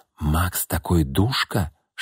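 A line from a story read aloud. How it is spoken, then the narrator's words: Whisper in ear. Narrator (Russian): шептала Ирина на ухо подруги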